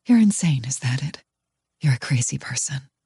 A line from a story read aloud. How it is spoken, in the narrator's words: My heart pounding painfully hard, I say faintly